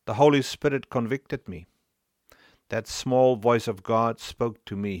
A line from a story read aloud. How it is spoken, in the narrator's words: he said